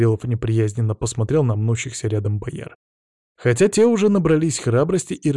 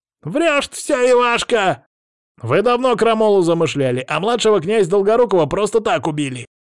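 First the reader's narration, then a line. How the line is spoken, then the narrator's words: Sudden yell. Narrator (Russian): Вдруг завопил один из вельмож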